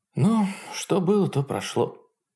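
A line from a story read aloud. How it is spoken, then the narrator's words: Sighed. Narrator (Russian): вздохнула Хонор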